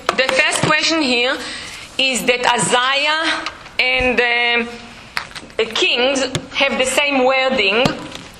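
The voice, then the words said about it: Speaker's own non-native accent. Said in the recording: “With my accent”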